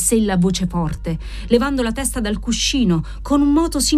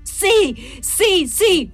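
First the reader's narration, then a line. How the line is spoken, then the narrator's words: Convulsive scream. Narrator (Italian): urlò lei, sollevata sul cuscino, con le pugna chiuse che stringevano convulsamente il lenzuolo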